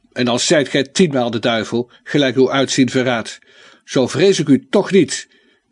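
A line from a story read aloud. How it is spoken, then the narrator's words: Defiant knight calling out. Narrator (Dutch): riep onze dolende ridder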